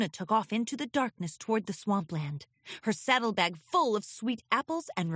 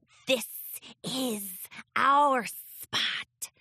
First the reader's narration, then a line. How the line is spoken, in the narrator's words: hissed the green snake head of the chimera